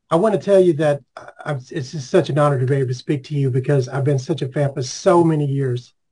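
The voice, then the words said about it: Congested, stuffed-up voice. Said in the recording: “excuse my voice ... I'm a little clogged up today”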